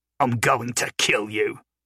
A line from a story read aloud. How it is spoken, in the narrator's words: snarled